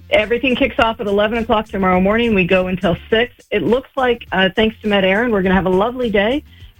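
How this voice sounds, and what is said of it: American Midwestern accent. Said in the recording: “My accent is from the middle of the United States, Salt Lake City, Utah ... you've definitely retained your accent”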